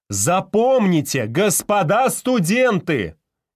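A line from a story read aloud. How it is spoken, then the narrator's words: Loud address. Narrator (Russian): Громко обратился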